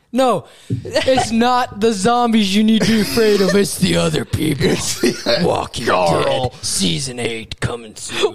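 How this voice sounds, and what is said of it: Slow, dramatic voice-actor delivery. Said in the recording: “Why are you going like Carl. Slowly like this? ... I was doing my voice actor voice.”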